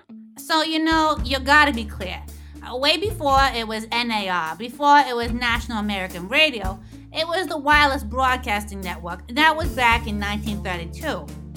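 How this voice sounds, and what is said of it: Strong regional accent. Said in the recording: “Ordinarily, we wouldn't allow this sort of accent anywhere near our microphones”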